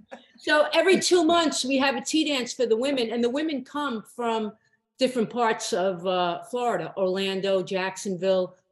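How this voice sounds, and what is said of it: New York accent. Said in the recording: “I heard the accent.”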